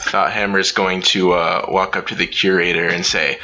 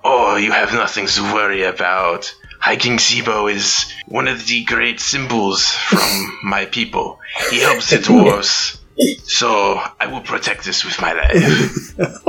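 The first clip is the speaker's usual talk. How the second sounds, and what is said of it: Put-on French-Canadian accent. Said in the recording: “I like the accent. I think it's French... it's Fantasy French Canada”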